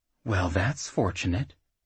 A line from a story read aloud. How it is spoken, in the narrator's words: Beryl said quietly